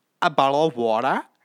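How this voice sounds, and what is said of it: Attempted Australian accent. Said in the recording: “I will work on my Australian accent. ... I can't do it. I really can't.”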